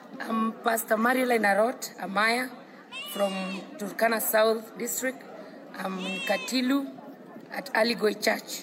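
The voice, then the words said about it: Thick Kenyan English accent. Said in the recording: “Her accent's a little thick”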